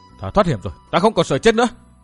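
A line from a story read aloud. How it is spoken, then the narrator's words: Elated frenzied shout. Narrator (Vietnamese): Khoan khoái trong người, chàng hét lên như cuồng dại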